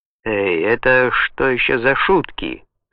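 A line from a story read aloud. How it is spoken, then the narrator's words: Shouting. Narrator (Russian): скричал Галло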